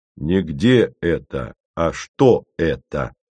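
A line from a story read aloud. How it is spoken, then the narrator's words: Stern correction. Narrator (Russian): строго поправил Костя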